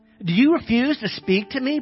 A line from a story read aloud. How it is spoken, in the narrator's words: Pilate said